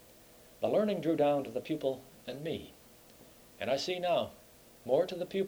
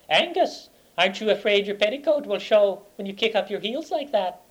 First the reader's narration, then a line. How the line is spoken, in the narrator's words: called out to me in a high girly voice